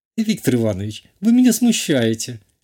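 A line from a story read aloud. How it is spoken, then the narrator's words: Giggling. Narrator (Russian): хихикнула та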